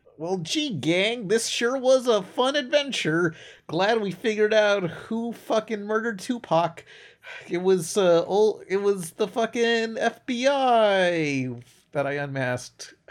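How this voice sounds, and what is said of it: Cartoon character Fred impression. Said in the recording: “do your best Fred impression.”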